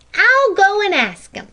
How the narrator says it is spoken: cried Jenny

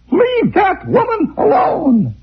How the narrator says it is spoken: his daughter shout from her bedroom

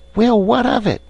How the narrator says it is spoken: squeaked Voost

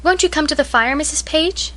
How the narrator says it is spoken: asked Katie, rather timidly

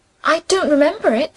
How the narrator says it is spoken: she said

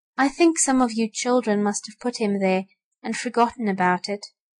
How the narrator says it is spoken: said Mrs

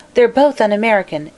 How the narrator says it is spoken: exclaimed Mary Louise

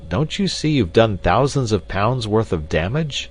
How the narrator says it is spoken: I cried

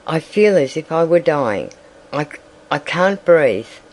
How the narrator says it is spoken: sighed Dorothy

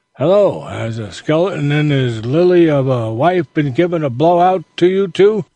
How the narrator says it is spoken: old Ben, who said, as he showed signs of indulging in another of his internal laughing spells

